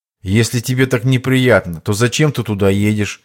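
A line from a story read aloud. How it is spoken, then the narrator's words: Plain. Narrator (Russian): спросил Иван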